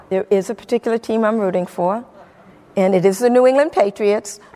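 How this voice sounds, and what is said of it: Noticeable regional accent. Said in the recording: “if you can't guess from the accent”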